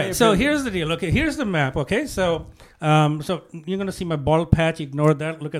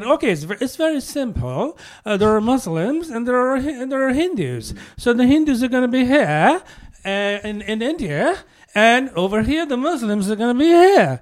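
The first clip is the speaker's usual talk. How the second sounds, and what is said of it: Bad put-on British accent. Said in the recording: “This is the worst British accent I've ever heard.”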